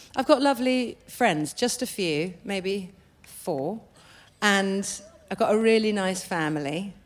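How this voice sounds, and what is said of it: British accent. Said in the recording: “you still have your British accent”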